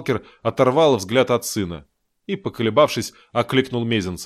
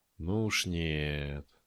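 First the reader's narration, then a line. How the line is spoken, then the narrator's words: Curt, quiet. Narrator (Russian): отрезал Таран, стараясь говорить тихо, чтобы не слышал хозяин бункера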